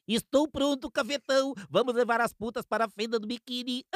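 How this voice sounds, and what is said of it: Cartoon character voice. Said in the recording (Portuguese): “que o Bob Esponja falou”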